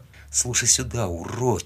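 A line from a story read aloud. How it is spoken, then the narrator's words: Quiet voice. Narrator (Russian): сказал я тихо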